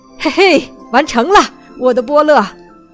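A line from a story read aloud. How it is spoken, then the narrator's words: Excited old man shouting. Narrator (Chinese): 老爷爷对孙女儿兴奋地叫道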